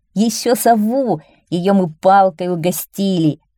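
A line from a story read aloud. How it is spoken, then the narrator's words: Laughing. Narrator (Russian): засмеялись Юхан и Нилла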